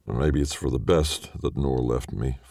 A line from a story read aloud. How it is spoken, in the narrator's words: Farhan says